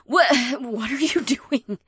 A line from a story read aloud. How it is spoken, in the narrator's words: She stammered as she gasped at me